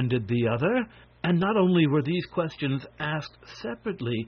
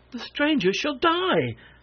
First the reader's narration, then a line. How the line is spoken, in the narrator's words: snapped one